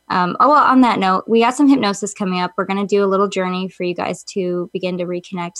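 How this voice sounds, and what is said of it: Congested, stuffed-up, mellow voice. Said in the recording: “I'm so mellow today ... I'm super stuffed up and I can tell in my voice”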